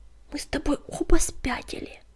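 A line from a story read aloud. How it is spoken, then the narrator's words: Hiss. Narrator (Russian): прошипел Крутобок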